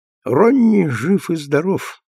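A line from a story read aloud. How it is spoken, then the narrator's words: Grim. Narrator (Russian): ответил Джессинт мрачно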